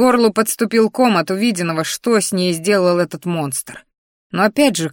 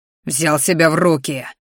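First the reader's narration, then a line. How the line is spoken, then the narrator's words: Growling. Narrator (Russian): рычал мой ящер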